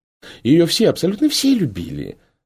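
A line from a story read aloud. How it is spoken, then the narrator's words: Ardent lady exclaiming. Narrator (Russian): с жаром воскликнула античная дама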